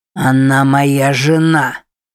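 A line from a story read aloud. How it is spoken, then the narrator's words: Growl. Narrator (Russian): прорычал Уильям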